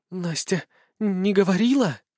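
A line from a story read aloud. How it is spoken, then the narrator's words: Breathless excited babble. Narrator (Russian): задыхаясь от возбуждения, пролепетала Машуня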